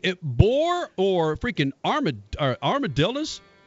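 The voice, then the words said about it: Texas accent. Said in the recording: “That was your Texas accent again.”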